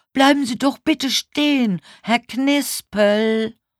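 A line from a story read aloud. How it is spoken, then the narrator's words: Loud call. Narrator (German): rief laut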